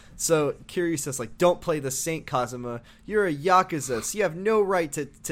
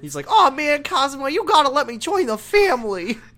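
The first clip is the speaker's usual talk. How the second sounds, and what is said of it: High-pitched baby voice, like helium. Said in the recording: “high-pitched Kiryu voice ... it sounds like maybe he inhaled some helium first. ... doing a little baby voice.”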